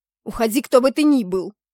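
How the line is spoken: Loud fierce bark. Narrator (Russian): Рявкнула, что есть мочи, желая отпугнуть непрошенного гостя

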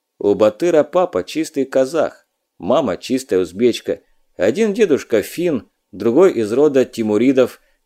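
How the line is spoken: Crisp fluent recitation. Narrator (Russian): без запинки отчеканил контрразведчик

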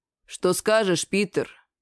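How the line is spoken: Gloomy address. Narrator (Russian): Мрачно обратился к нему Левассер

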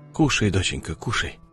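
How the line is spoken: Calm soothing man's voice. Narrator (Russian): Спокойно, будто обращаясь к ребенку, говорил мужчина

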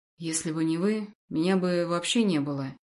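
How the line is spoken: Soft interruption. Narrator (Russian): мягко перебил

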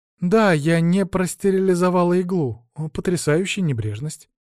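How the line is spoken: Sigh, feigned naivety. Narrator (Russian): вздохнул я, притворившись дурачком

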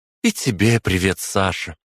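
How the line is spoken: Joyful blurt. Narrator (Russian): радостно выпалила Алина

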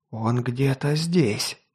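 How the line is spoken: Whisper. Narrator (Russian): прошептал наемник

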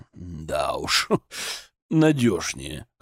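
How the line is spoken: Wry snort. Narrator (Russian): хмыкнул Зотов

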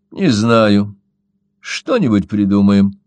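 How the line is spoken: Calm, cold. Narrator (Russian): спокойно и холодно ответила девица

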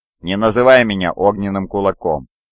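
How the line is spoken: Laughing reply. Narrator (Russian): Легионер сынов Гора рассмеялся в ответ

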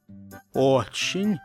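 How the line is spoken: Timid. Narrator (Russian): робко признался я

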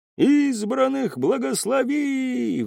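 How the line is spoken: Crowd roaring. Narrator (Russian): взревела толпа

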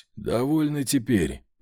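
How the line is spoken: Rasped. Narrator (Russian): прохрипел

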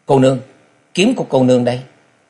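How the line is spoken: Urgent call. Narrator (Vietnamese): Trần Lâm gấp giọng kêu lên nói

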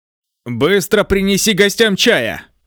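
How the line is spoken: Commanding shout. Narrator (Russian): Ли Фэнг закричал, приказывая

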